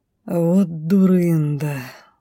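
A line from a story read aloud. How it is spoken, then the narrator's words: Sigh. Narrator (Russian): вздохнул повелитель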